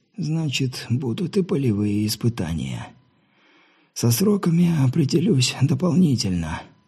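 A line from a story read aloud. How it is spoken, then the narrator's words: Trembling voice. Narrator (Russian): дрожащим голосом заверил Терри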